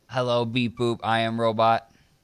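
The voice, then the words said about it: Robotic voice. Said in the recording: “you sound like a robot. ... You're a robotic guy. ... Yes, you're still a robot.”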